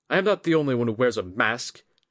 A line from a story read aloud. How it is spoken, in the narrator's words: Jiro snapped